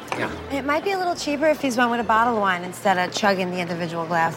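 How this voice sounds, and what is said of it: Strong Philadelphia accent. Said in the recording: “that waitress that was had that strong ... Philly ... accent? ... The accent was good.”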